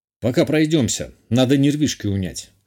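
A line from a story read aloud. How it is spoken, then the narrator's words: Snort. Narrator (Russian): хмыкнул я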